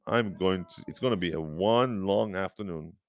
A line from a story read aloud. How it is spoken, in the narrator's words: exclaimed